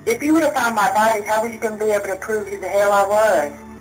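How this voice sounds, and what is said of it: Thick pronounced Southern American accent. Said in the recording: “odd Southern accent... The accent was really thick... She has a Southern accent. It's a pronounced Southern accent.”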